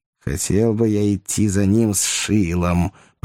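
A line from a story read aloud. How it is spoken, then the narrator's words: Grumbling lanky man. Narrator (Russian): проворчал долговязый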